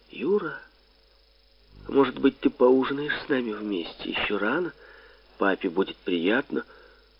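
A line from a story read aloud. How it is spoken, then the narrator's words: Mother's tender whisper. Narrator (Russian): моя мама и ласково прошептала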